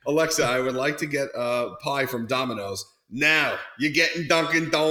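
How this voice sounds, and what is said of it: Usual voice. Nothing is said of it.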